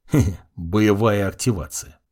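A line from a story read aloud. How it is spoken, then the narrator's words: Muttering. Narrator (Russian): пробормотал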